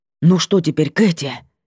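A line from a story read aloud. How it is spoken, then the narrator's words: Breathless strained words. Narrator (Russian): выдавил Вольпан, захлебываясь воздухом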